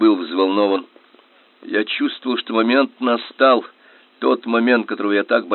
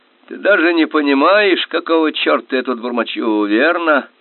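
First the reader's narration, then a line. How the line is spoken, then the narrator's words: Nasty-voiced question. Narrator (Russian): Каким-то противным голосом спросил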